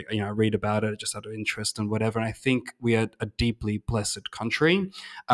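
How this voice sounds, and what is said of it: Australian accent. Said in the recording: “I'm Australian, obviously. You can tell by my accent.”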